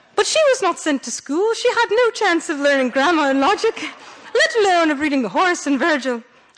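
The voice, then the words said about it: Bad posh BBC-style Virginia Woolf impression. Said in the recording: “I can't do a Virginia Woolf accent, or else I would. But it's like, imagine Virginia Woolf ... That's like BBC. Sounds bad. Like bad Downton Abbey.”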